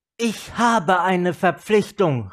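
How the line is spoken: Called out. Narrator (German): rief Chandra

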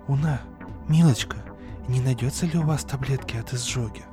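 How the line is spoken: Whispering doctor's wife. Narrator (Russian): Прошептала жена доктора

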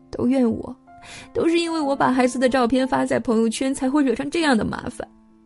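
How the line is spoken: Crying. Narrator (Chinese): 他哭着说

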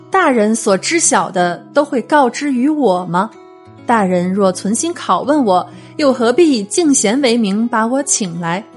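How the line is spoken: Retort after a laugh. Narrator (Chinese): 郭泰一笑过后反问说

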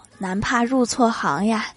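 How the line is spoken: Sighing exclamation. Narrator (Chinese): 我感叹道

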